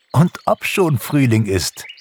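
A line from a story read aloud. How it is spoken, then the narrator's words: Laughing. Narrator (German): lachte Pixie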